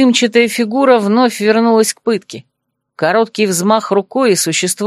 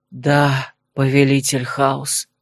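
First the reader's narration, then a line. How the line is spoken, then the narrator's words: Breathed out, transfixed man. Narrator (Russian): выдохнул мужчина, не в силах отвести взгляда от происходящего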